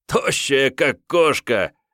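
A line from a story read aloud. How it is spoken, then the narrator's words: Short laugh. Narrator (Russian): хохотнул Клаус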